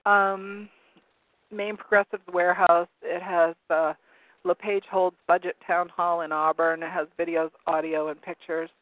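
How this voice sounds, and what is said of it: Hoarse, strained voice. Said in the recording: “I'm losing my voice. I had a sore throat earlier ... I'm getting hoarse from reading so much ... croaking”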